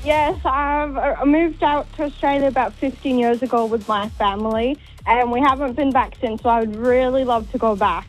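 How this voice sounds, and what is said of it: Slight Welsh accent. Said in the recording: “I think I spot a bit of an accent there ... you're from Wales”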